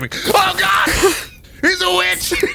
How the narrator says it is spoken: The bartender just starts screaming

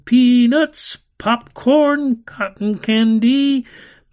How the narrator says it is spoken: Carnival barkers shouted

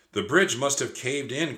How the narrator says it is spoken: cried Annie

